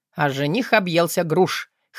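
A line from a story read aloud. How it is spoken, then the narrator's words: Smirk from another room. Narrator (Russian): хмыкнул Артем с кухни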